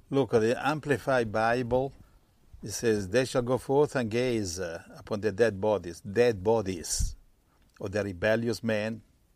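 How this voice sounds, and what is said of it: Italian accent in English. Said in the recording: “I'm Italian, so I hope you enjoy my accent.”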